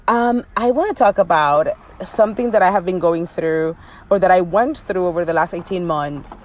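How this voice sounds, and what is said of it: Dominican accent. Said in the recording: “I am a Dominican with a Dominican accent saying y'all”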